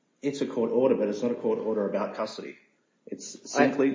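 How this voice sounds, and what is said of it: Australian accent. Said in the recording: “you could probably tell from my accent that I have some background in Australia”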